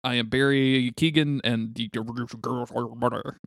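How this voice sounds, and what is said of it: Imitates another person's voice. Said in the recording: “That's my Barry Keoghan impression.”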